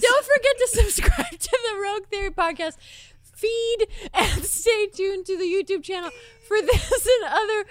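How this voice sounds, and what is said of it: Raised-pitch imitation of another person. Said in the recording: “You can lower your voice.”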